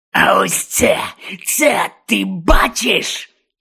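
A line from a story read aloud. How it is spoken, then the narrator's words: Growled. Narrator (Ukrainian): Гарчав Гонт на Огдена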